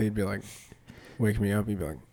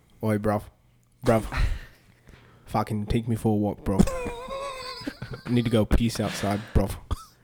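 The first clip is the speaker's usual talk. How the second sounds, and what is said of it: Put-on British accent. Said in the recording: “I think he'd have a British accent.”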